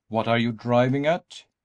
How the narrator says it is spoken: he demanded impatiently

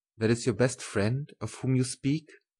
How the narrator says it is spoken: he said in an altered tone

